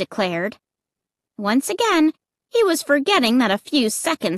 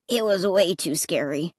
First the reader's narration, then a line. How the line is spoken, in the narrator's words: Clay murmured